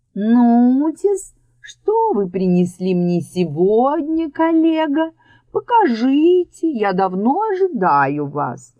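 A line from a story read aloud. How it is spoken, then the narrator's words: Sing-song voice. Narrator (Russian): странный паук проговорил певучим голосом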